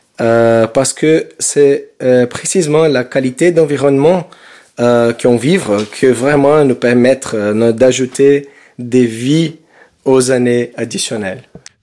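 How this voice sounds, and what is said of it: Sing-song Brazilian accent in French. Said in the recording (French): “votre accent brésilien chante”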